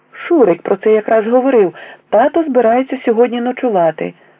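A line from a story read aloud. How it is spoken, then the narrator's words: Exclaimed. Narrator (Ukrainian): вигукнув Вітасик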